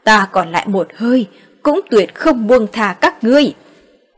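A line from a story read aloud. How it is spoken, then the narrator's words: Furious loud roar. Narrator (Vietnamese): Từ Phượng Sơn nổi giận gầm lên một tiếng, cao giọng quát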